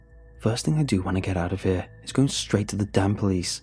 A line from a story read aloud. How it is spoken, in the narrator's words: I growled